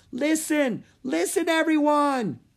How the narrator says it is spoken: he yelled

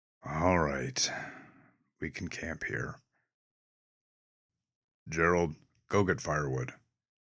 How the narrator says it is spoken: With a disgruntled sigh, he conceded

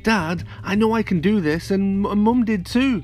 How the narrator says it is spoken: Flint cried

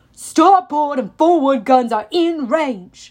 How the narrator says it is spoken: the captain shouted

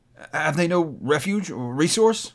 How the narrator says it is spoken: cried Scrooge

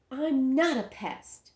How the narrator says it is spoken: said Ramona indignantly

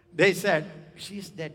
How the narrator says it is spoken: they laugh

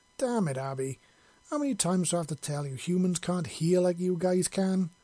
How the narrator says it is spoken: Grace grumbled

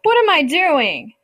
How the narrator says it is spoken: he wailed

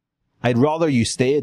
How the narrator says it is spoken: she says

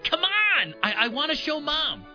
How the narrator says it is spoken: David said excitedly

